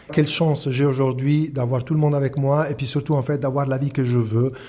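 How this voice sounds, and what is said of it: Italian accent speaking French. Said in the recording (French): “Il est italien d'origine, on reconnaît son bel accent.”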